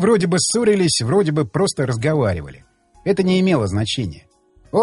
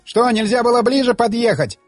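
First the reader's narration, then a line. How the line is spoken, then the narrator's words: Indignant yelling. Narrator (Russian): возмущенно орал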